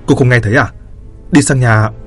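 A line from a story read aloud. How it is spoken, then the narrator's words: Irritated, near-shouting. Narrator (Vietnamese): Hắn khó chịu nói như quát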